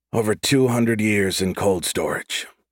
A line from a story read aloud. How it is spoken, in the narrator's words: he said with a deep sigh